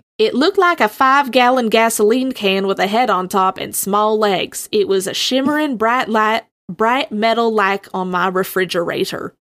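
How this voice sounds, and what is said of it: Put-on Southern American accent. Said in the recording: “to do this in a Southern accent ... I am going to do the accent for this one.”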